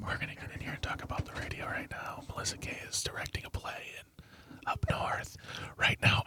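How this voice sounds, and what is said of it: ASMR-style whisper. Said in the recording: “a master of ASMR. ... why is he whispering?”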